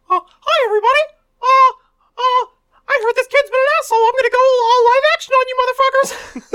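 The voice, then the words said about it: Mickey Mouse cartoon voice. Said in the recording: “That's actually a pretty good Mickey. ... I have a good Mickey. ... My only good impression.”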